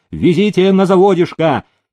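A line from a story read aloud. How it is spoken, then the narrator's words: Shouted. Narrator (Russian): Демидов закричал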